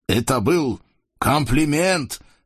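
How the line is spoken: Shout. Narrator (Russian): крикнул Сарам

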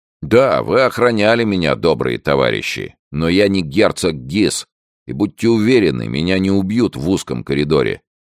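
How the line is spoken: Through gritted teeth. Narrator (Russian): прибавил офицер сквозь зубы

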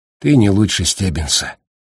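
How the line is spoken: Sad. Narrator (Russian): печально проговорил Гаррити

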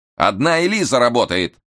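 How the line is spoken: Irritated shout. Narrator (Russian): раздраженно крикнул Штерн, он нынче был не в духе

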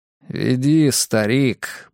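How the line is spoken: Gruff mutter. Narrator (Russian): буркнул я

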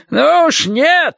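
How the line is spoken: Yelling. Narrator (Russian): заорал он

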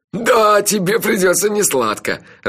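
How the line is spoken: Laughing. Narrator (Russian): расхохотался Анчифа

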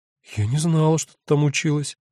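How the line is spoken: Bewildered voice. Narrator (Russian): растерянно говорит Алдона

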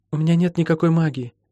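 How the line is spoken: Quiet. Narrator (Russian): негромко сказала Молли

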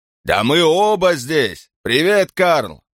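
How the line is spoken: Booming voice. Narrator (Russian): прогремел голос Асада

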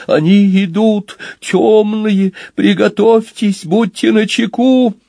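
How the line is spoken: Frightened shout. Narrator (Russian): испуганно закричал

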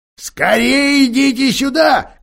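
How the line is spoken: Joyful shout. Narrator (Russian): кричал мистер Бобр, чуть не приплясывая от радости

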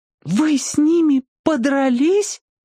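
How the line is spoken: Horrified exclamation. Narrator (Russian): воскликнула она в ужасе

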